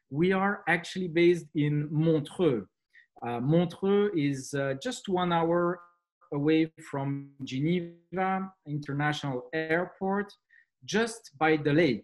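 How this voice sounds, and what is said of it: French accent. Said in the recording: “as you can tell from my accent, uh, French uh, is uh, the, the main language that we speak here”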